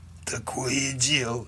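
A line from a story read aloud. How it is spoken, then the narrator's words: Hoarse rasp. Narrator (Russian): прохрипел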